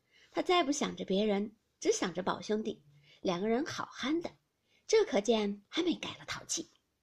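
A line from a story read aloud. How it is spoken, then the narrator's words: Laughing. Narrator (Chinese): 宝钗笑道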